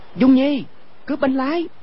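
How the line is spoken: Loud shout. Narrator (Vietnamese): cao giọng quát lên

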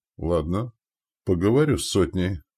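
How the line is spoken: Sighing. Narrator (Russian): вздохнув, промолвил Избор

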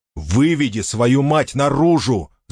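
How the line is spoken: Yelled. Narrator (Russian): завопил Ричард

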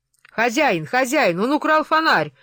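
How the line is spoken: Old man yelling. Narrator (Russian): заорал старик

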